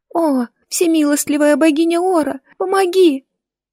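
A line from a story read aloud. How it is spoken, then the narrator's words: Crying and whimpering. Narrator (Russian): Плач и хныканье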